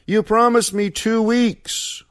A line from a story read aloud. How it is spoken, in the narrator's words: Joaquin yelled after him